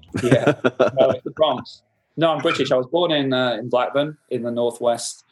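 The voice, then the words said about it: Soft Northern English accent. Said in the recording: “I'm detecting an accent in your voice... I've got a very soft Northern accent... all the vowels are lengthened”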